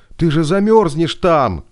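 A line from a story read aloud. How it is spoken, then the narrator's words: Shouting. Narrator (Russian): крикнула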